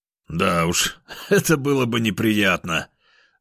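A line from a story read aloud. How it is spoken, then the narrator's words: Laughing. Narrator (Russian): рассмеялся я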